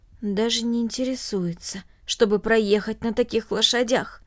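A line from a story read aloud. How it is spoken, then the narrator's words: Undertone. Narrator (Russian): добавил вполголоса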